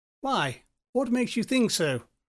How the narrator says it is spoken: asked Nerypsy nervously

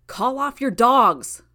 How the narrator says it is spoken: Brian shouted

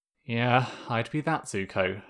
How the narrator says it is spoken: Zuko said, sighing

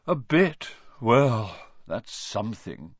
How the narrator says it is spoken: Ronan sighed

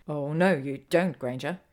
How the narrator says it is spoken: he growls in interruption

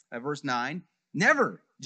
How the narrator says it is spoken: Jonathan exclaimed

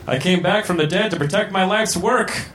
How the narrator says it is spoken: shouted sexistly

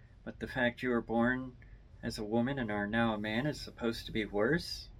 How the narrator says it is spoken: Icefire says plainly

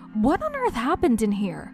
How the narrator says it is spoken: she demanded in an angry voice

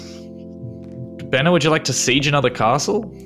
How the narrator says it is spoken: Bennett laughs

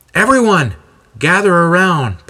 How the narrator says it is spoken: Paul yells out

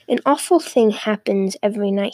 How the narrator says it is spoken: he said

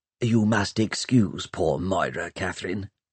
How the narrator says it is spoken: whispered Pomeroy

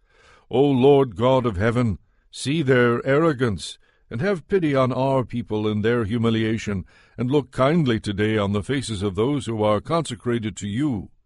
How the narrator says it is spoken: the people cried out

